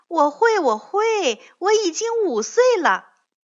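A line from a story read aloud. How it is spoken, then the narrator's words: Loud. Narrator (Chinese): 小慧大声地说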